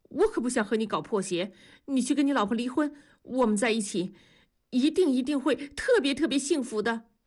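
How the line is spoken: Breathless. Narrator (Chinese): 方红兵气喘吁吁地说

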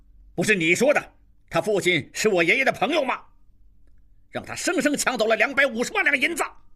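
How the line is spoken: Furious cursing. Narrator (Chinese): 金勇拍案大骂

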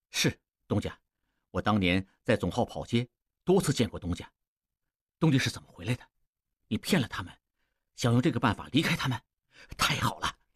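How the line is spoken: Low, hushed. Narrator (Chinese): 王宗宇压低声音说

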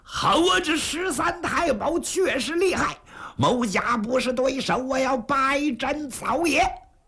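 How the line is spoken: Loud roaring yell. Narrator (Chinese): 程咬金 哇哇暴叫

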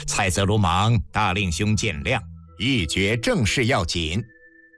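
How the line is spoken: Tense, laughing. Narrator (Chinese): 心下一紧，笑道

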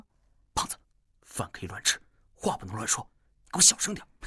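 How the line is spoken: Hurried low voice. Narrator (Chinese): 戴沐白有些匆忙地压低声音说

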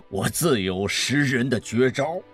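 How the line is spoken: Cheerful, laughing. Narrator (Chinese): 宋老板笑着说

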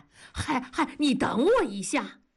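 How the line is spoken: Calling from behind. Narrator (Chinese): 大庄在后面喊

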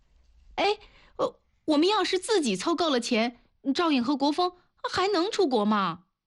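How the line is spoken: Loud question. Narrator (Chinese): 他大声地问吕传国

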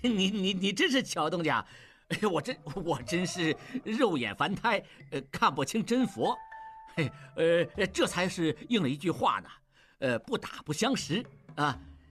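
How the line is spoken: Awkward, fawning and fearful. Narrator (Chinese): 金勇脸上又现出谄媚和惶恐交织的神情，试图陪笑又做不到，尴尬地说

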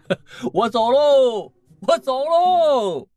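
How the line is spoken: Laughing. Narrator (Chinese): 乔治趁机笑着说

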